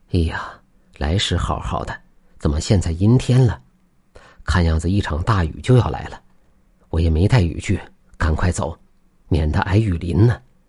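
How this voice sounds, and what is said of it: Speaking in a low, quiet voice. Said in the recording (Chinese): “小声说道”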